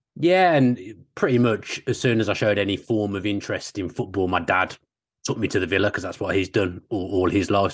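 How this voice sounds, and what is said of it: Local regional English accent. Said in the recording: “I'm detecting the accent. ... from ... the area.”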